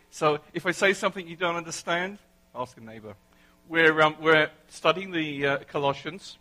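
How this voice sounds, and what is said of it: English accent. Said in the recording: “you get to put up with my English accent for a whole 30 or 40 minutes”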